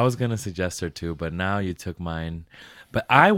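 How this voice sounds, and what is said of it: Usual voice. Nothing is said of it.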